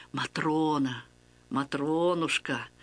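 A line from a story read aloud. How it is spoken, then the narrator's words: Tender murmuring, priest. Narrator (Russian): ласково приговаривал священник, отец Василий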